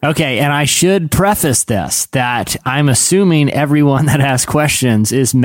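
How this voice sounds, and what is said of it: Usual voice. Nothing is said of it.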